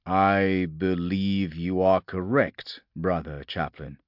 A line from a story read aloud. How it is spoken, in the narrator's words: Tyrannus said slowly